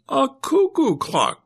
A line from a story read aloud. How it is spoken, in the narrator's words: Doris cried